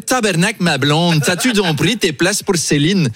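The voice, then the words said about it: Put-on Québécois French accent. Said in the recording (French): “C'est mon imitation de Louis XVI... Un accent canadien parce qu'il paraît que le français du Québec est une conservation du français de l'époque”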